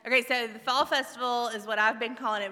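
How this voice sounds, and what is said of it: Loud projecting teacher voice. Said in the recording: “I can be loud. I can use my teacher voice.”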